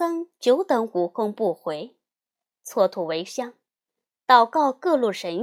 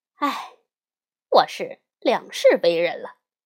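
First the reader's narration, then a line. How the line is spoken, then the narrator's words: Sighing. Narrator (Chinese): 叹道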